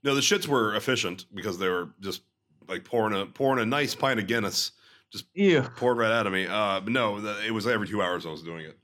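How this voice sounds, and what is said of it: Slightly gravelly, sore-throated voice. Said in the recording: “My throat's a little sore, so I might be still a little gravelly in this one”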